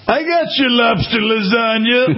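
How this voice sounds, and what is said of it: Impersonation of a friend. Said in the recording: “me do my Jonathan impersonation”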